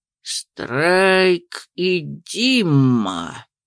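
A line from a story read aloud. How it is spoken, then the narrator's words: Thoughtful drawl. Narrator (Russian): протянул задумчиво Видер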